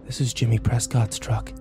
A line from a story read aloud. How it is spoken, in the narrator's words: I breathed